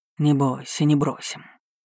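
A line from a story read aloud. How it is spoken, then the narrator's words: Unusually soft voice. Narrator (Russian): произнес он, и голос его звучал непривычно мягко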